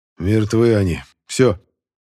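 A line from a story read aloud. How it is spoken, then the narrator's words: Hoarse rasp. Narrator (Russian): Прохрипел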